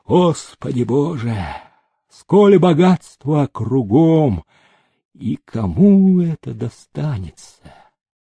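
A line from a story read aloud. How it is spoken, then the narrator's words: Clerk's deep sigh. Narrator (Russian): приказчик вздохнул полной грудью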